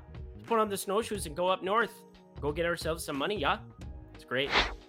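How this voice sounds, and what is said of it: Put-on Canadian accent. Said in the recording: “Svensson kind of sounded like it, but he's Canadian ... that horrible accent”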